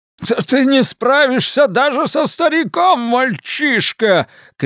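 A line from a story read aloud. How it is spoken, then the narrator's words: Feverish, excited shout. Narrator (Russian): кричал Гольдман в горячечном возбуждении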